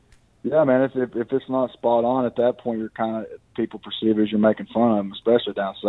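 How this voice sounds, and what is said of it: Usual voice. Nothing is said of it.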